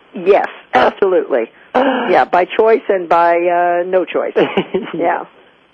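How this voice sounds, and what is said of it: Hoarse, cracking voice recovering from voice loss. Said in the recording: “I'm actually a lot better than my voice is going to sound ... I'm about 3 days back from losing my voice ... that in-between voice sound ... That adolescent boy sound, actually.”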